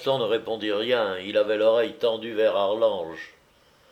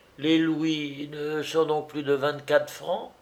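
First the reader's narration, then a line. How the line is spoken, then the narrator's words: Timid young stable boy. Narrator (French): reprit timidement le petit palefrenier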